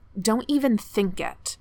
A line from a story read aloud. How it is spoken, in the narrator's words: Kanju snarls